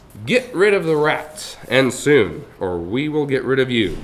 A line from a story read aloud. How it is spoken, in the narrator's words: shouted the town's banker